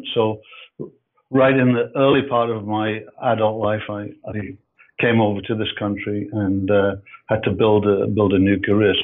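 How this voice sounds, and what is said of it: Scottish Edinburgh accent. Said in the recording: “As you can hear from my voice, I'm um, I'm not uh, North American ... I'm from Edinburgh, I'm from, so I'm from Scotland”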